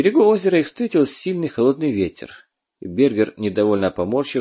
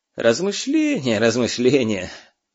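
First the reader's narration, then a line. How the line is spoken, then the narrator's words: Creaky laugh. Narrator (Russian): скрипуче посмеялся оберфюрер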